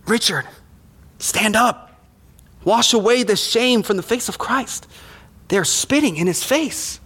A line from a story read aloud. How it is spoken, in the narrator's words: Sabina, she whispered to her husband